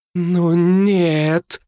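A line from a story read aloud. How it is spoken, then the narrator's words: Breathless dawning realization. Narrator (Russian): выдохнула Сильвер, уже понимая, что это значит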